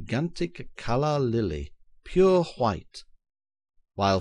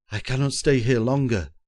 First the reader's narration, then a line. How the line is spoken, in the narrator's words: groaned Simard, quaking, his nerves, like himself, in rags